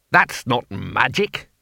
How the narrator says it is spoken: he snapped

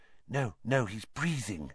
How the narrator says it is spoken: whispered Hermione

